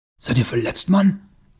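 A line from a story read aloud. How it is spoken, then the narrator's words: Breathless, astonished gasp. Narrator (German): keuchte Taurus, noch immer verblüfft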